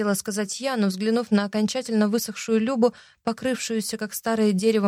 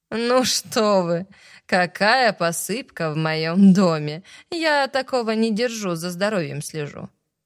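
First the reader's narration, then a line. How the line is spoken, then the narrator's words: Laughing. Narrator (Russian): рассмеялась Люба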